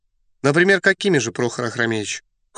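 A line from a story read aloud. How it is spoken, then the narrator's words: Cold inquiry. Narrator (Russian): холодно осведомился Эраст Петрович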